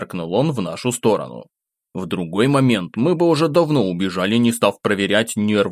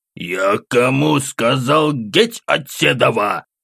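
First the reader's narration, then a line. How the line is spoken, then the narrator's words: Menacing growl. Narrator (Russian): повторно рыкнул с еще большей угрозой в голосе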